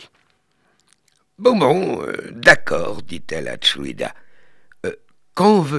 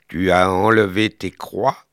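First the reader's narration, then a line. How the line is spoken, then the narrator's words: Plain question. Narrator (French): lui demanda Tchoulida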